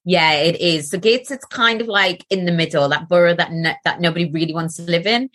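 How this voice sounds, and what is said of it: Soft Geordie accent. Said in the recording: “you have my favourite accent in the whole of the world ... are you called a Geordie? ... I'll sound more Geordie now that I'm talking about it ... So it's a bit softer”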